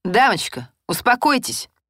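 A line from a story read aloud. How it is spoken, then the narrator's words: Stern military bark. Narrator (Russian): по-военному строго гаркнул сержант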